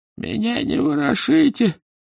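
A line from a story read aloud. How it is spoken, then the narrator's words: Dying man's moan. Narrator (Russian): простонал умирающий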